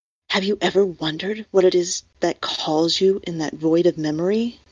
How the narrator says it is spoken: Teemer breathed

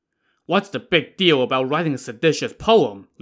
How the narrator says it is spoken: Li Kui scoffed

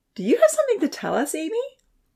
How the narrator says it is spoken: merrily, she asked

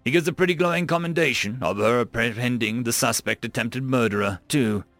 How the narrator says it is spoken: she chuckled

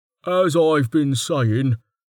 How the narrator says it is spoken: Smelt said flatly

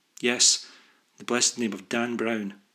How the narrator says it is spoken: chuckled

